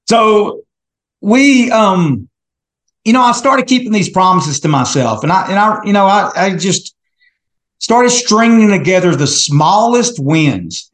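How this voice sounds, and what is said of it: Heavy East Texas accent. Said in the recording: “I've got a heavy East Texas accent... you got a really bad Texas accent”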